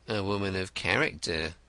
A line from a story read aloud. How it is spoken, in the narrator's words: murmured the detective